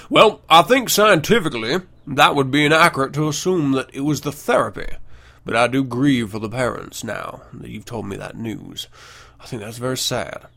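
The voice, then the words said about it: Reads quote in slight accent. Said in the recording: “had a little accent there.”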